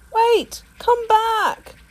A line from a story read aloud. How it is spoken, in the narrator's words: yelled the porcupine